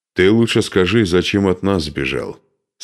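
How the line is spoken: Plain. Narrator (Russian): спросил его Духарев

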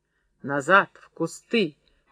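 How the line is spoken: Hoarse rasp. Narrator (Russian): прохрипела Серафима

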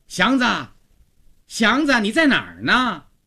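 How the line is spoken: Loud calling maidservant. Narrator (Chinese): 曹家的女仆高妈响亮地叫着

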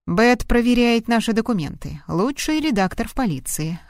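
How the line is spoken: Plain. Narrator (Russian): ответил Грилл

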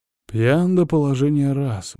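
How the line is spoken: Muttered. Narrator (Russian): бормочет

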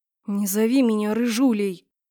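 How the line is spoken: Grumbling. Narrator (Russian): Проворчала

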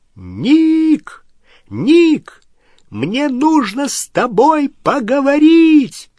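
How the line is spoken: Shouting at full volume. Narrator (Russian): крикнул во всю мочь, перекрывая шум

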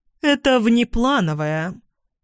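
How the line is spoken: Dry reply. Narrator (Russian): сухо отвечает Раиса Львовна

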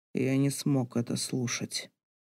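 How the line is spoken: Undertone. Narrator (Russian): произносит Саша вполголоса

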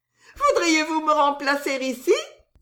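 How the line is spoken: Laughing exclamation. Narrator (French): s'écria Suzon en riant

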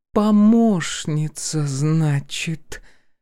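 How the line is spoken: Drawling. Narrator (Russian): протянула Полина

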